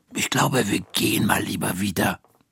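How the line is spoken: Whispering woman. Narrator (German): flüstert Frau Krüger

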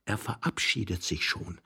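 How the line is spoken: Young man whispering. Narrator (German): flüsterte der junge Mann seinem Leidensgenossen zu

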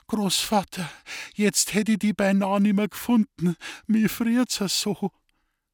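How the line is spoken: Whimpering. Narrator (German): Sie wimmerte

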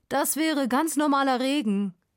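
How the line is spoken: Calling out. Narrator (German): ruft er

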